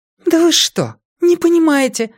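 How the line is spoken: Exclaiming again. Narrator (Russian): опять воскликнула Вера

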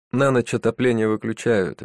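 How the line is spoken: Guilty tone. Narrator (Russian): виноватым тоном добавил он

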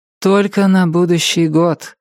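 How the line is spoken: Sighing. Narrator (Russian): вздохнула Полли

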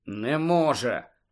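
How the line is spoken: Muttering. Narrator (Ukrainian): пробурмотів Гаррі

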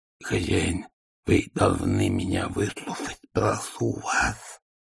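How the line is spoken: Hoarse wheezing. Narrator (Russian): сипел Игорь

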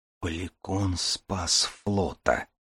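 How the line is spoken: Whisper. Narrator (Russian): прошептал Дар

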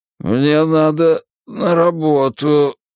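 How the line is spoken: Mumble. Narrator (Russian): промямлил он

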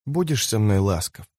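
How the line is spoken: Soft question. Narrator (Russian): спросила она мягко

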